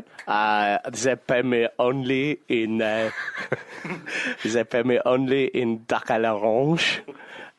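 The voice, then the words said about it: Put-on French accent. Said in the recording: “That is like, it's a really convincing French accent now.”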